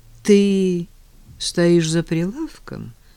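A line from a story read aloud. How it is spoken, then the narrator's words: Sad question. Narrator (Russian): грустно спросил Женя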